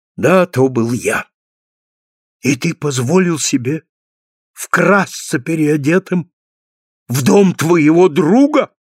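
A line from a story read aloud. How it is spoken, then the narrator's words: Exclaimed. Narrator (Russian): воскликнул фургонщик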